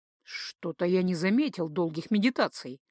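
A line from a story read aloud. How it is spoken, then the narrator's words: Muttered. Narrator (Russian): буркнул Джейка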